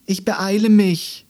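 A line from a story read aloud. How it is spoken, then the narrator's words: Desperate call. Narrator (German): rief Andi ihm verzweifelt zu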